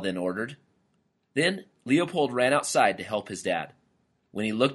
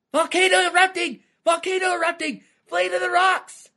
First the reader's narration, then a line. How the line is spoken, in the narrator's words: Scared out of his wits, Lyle screamed, Then running in circles, he yelled to his family